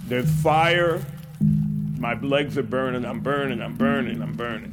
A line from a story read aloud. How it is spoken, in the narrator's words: a man yelling